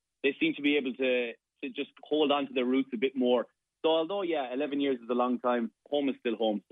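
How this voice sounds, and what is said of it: Irish Limerick accent. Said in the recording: “the Limerick accent is still there”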